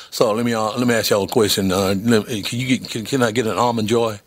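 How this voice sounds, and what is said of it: Put-on Southern US accent. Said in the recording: “I went with the southern accent”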